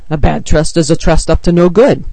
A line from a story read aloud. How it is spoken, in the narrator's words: Teddy grunts